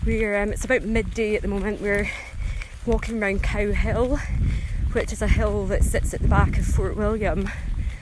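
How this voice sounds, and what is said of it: Slightly out of breath. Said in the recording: “I sound a little bit out of breath, I'm just out for a walk”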